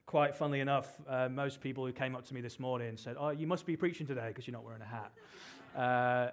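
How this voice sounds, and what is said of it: British accent. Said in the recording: “as you can probably tell from my accent, I'm from the UK.”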